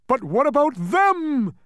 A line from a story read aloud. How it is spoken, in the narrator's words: cried the terrified bug, for at that very instant the other demons had reached the top at last and were leaping forward to seize them